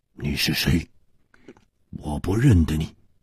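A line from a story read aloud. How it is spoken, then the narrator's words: Startled, hoarse. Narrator (Chinese): 蒙面客身子一震，哑声说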